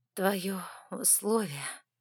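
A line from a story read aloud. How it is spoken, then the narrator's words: Hoarse and strained. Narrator (Russian): хрипло выдавила я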